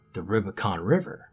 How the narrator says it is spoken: Joe answered

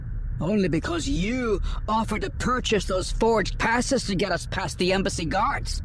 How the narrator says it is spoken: Pock snapped back

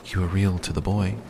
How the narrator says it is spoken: the fairy said

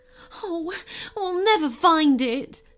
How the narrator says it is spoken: she moaned

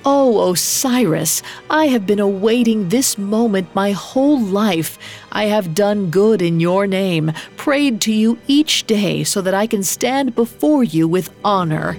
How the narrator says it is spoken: He made sure his voice was full of honeysuckle as he cried

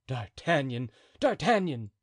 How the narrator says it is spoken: cried Athos

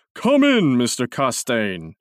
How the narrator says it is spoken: cried in his deep, hearty voice

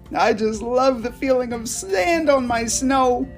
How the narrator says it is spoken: he squealed

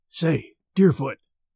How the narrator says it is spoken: whispered Merritt

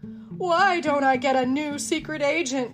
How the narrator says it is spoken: Chief Quimby moaned

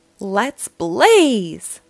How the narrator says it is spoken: Blaze shouted

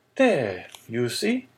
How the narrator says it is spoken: exclaimed Danglars

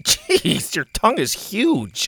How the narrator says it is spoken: Bo laughed

